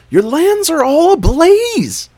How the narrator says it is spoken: cried animal servants

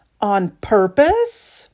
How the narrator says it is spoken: Claire shrieks

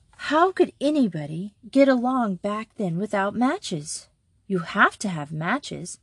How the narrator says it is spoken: Betsy went on with the conversation by exclaiming

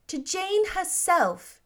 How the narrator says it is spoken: exclaimed

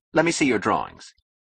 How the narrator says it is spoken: he interrupted to say curtly

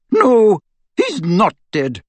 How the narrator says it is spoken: said McGonagall bitterly

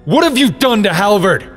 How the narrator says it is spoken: Link demanded, raising his voice

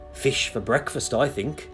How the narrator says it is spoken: Jesus said, and laughed again

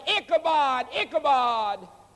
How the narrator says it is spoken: that priest went running out of that temple yelling

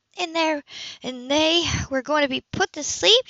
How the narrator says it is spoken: She groaned

